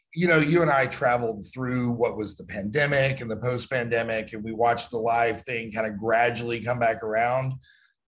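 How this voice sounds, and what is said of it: Hoarse, raspy worn-out voice. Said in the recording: “my voice is shot. I sound like Marge Simpson's sisters.”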